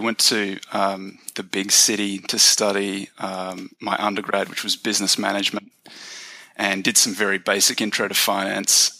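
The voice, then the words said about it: Australian accent. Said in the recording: “I grew up in Australia. That's the accent.”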